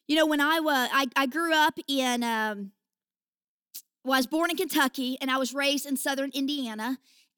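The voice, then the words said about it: Rural Kentucky/Indiana American accent. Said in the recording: “this accent is, uh, I actually say that it's a hick anointing”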